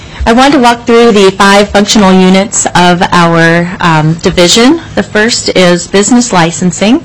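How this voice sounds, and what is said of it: Congested voice with a cold. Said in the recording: “I have a bit of a cold today.”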